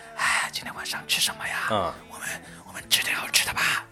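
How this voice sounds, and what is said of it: Very quiet, hushed speech. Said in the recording (Chinese): “在家里面就声音很小的说话，就用那种”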